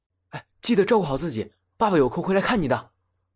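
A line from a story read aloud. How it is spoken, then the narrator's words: Hurried, urging. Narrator (Chinese): 陆显急忙嘱咐道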